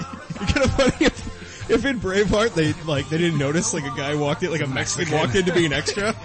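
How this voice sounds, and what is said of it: Usual voice. Nothing is said of it.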